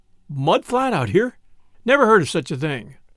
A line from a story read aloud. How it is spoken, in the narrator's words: Paul exclaimed with a snort of unbelief